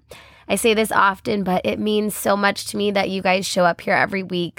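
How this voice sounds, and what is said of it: Congested, stuffy head-cold voice. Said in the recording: “I came down with a pretty nasty head cold. You can actually probably hear it in my voice right now. ... if you hear me cough or sniffle”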